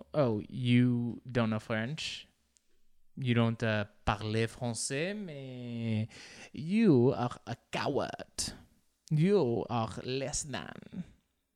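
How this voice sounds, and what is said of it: Weak attempted French accent. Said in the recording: “I tried to do the French accent, and I just sounded like my Mexican grandma... Can't do accents.”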